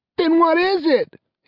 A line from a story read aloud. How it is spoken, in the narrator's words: he yelped